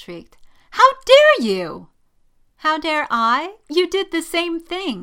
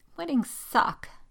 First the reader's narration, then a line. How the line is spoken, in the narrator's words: she mumbled